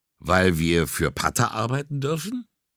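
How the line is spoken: Laughing. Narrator (German): Vizzani lachte

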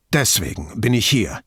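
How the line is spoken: Strained voice. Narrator (German): sagte mit gepresster Stimme

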